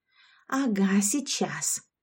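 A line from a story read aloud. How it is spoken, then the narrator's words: Whispering. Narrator (Russian): прошептала Яшка ему в спину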